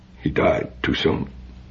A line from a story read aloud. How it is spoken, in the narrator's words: his voice faltered